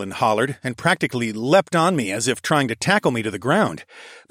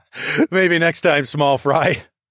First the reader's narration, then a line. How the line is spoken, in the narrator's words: I laughed